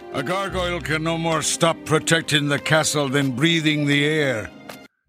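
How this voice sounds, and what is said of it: Scottish accent. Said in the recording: “Maybe that was a Scottish accent. ... Yeah, I think that it was. ... Sexy, I'll tell you that. It's a sexy accent.”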